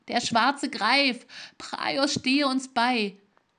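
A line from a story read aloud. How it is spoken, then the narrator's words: Horrified soldier's cry. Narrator (German): rief einer der Soldaten entsetzt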